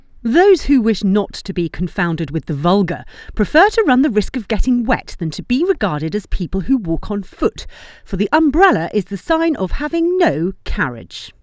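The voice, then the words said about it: British accent reading. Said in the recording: “read in a British accent”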